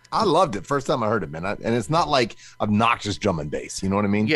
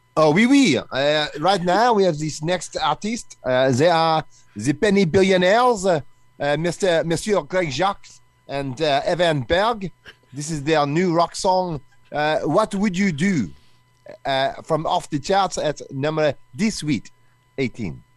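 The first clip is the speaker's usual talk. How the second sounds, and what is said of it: Put-on French accent. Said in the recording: “Are you going to do your French accent now?”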